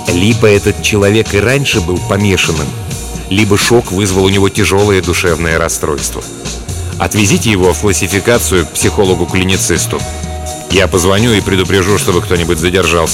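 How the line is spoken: Low voice. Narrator (Russian): координатор сказал вполголоса

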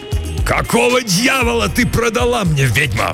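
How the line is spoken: Roaring. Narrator (Russian): взревел он

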